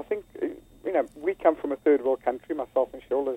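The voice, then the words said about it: South African accent. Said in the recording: “as you can hear by the accent, coming from South Africa”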